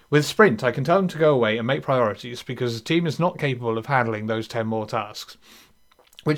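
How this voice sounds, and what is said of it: Speaker's own accent. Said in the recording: “I'm doing it in my accent, which makes it sound really weird.”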